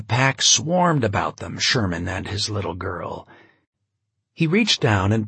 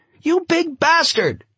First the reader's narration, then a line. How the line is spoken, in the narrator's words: The woman began screaming